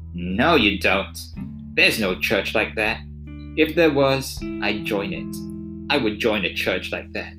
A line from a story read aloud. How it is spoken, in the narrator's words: almost sneered as he answered